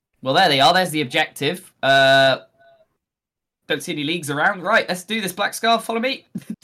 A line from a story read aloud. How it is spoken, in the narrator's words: Big Boss Lothi just yelled